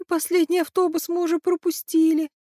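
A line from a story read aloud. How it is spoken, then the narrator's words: Groaning. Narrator (Russian): простонала она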